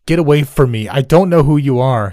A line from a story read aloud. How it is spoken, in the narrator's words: he yelled